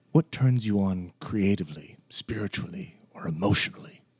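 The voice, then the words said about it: Imitates another person's voice. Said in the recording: “I'm going to do my best James Lipton ... You're going to impersonate James Lipton?”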